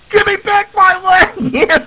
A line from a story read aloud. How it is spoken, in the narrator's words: Ralph's upstairs screaming